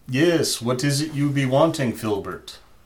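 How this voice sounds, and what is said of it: Put-on Russian accent. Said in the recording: “my Russian accent”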